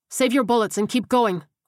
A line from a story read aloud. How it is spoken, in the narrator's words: Ortega barked